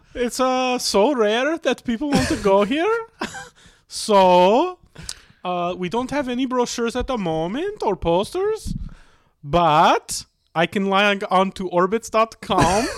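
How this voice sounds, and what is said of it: Put-on Swedish accent. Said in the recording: “if I do a Swedish accent, it's going to come off Jamaican ... let me hear your Swedish”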